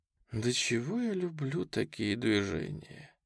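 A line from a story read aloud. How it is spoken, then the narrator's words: Sigh. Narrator (Russian): вздохнула первая травец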